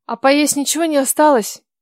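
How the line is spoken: Girl's plaintive moan. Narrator (Russian): жалобно простонала девушка

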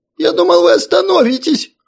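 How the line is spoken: Frail humanoid whimpering. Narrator (Russian): проскулил щуплый гуманоид

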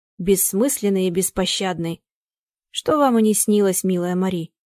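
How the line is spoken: Plain. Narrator (Russian): Сказал Яков Тимофеевич

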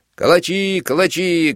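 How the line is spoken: Shouted. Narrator (Russian): кричал он

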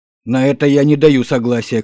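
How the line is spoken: Shout. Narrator (Russian): крикнул Гренер

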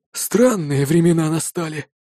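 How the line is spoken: Sighing old man. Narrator (Russian): вздохнул кто-то из стариков-ветеранов

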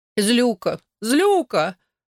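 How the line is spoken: Sobbing. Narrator (Russian): Анни зарыдала

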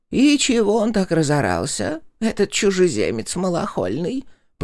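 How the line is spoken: Creaky voice. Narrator (Russian): проскрипела она

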